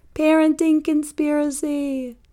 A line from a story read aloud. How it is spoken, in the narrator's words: I'd shout back